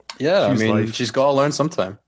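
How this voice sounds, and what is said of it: Glaswegian Scottish accent. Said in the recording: “Is it like a Glaswegian or? ... So that's the accent.”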